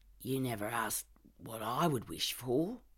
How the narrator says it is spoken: I mutter

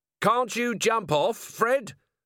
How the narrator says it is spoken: Vimes yelled as he ran along behind

